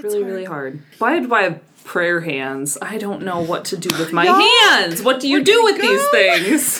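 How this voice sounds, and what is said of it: Usual voice. Nothing is said of it.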